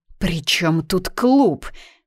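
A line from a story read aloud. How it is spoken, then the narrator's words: Through gritted teeth. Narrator (Russian): процедила соседка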